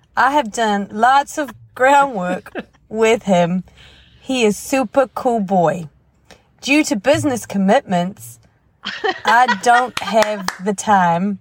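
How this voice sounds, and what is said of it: Southern accent. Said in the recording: “I don't know where that southern accent came from.”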